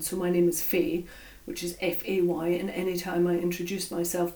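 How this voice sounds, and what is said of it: Stoke accent, hard to understand. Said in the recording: “Stoke accent ... sometimes my accent can be quite hard to understand”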